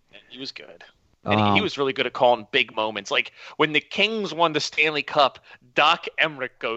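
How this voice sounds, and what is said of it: Usual voice. Nothing is said of it.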